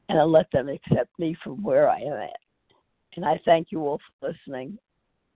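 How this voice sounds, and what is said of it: Raspy voice. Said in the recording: “My throat's a little raspy.”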